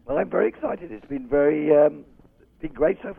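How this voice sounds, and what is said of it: Rough, strained voice. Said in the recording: “Got a bit of a dodgy throat ... I got a bit of a funny voice”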